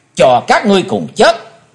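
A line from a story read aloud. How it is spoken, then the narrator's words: Deep bark. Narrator (Vietnamese): Chí Tôn năng trầm quát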